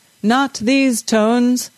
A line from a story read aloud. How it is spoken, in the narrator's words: the bass singer bellowed